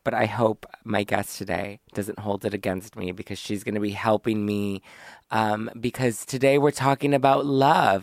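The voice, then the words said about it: Hoarse, mostly lost voice. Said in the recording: “I had an awful flu over the weekend ... My voice is still gone.”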